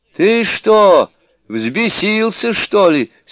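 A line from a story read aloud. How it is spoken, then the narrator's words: Laughing shout. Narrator (Russian): смеясь крикнул демон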